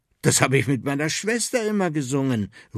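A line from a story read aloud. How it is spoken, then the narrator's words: Enthusiastic call. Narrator (German): ruft er begeistert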